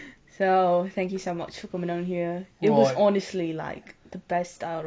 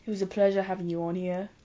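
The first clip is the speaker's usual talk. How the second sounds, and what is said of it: Attempted British accent, sounding Australian. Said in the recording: “I'm gonna do my British accent. ... That was kind of Australian”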